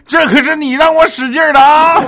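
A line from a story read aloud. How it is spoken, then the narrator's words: Shouting while running. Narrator (Chinese): 那史进倒退了十米之后，树跑着喊说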